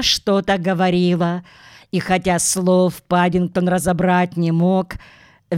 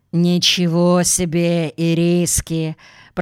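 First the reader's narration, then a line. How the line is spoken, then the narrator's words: Grumbling. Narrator (Russian): проворчала миссис Бёрд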